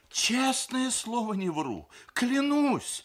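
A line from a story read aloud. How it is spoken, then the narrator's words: Babbling. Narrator (Russian): залепетал Сергей Николаевич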